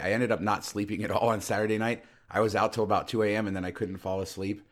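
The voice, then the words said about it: Weak, recovering voice. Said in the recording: “I got home yesterday and had no voice. Thankfully, it's come back a little bit.”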